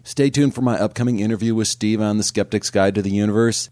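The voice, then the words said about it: Strained, under-the-weather voice. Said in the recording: “I really think I need to give my voice a rest here... I'm a little bit under the weather. I'm sorry for the sound quality.”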